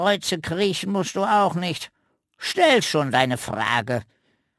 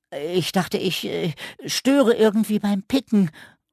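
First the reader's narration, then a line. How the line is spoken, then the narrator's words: Stammering. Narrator (German): stotterte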